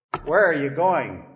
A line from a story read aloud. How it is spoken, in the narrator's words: he snarled